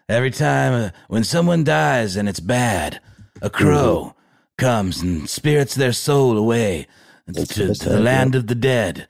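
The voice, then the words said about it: Creepy movie voiceover voice. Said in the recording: “it was like a creepy voiceover movie impression”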